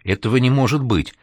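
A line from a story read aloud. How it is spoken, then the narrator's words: Frightened, confused, forced out. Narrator (Russian): Испуганно растерянно выдавил из себя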